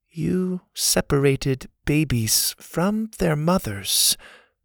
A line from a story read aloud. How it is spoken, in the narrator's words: the girl said in her soft voice